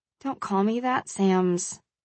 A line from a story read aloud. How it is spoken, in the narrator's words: I mumbled